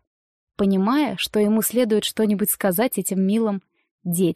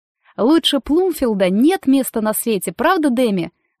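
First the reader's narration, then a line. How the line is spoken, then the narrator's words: Exclaiming. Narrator (Russian): воскликнула Дейзи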